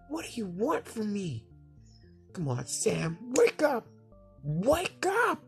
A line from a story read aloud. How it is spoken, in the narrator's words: Samuel froze up and yelled out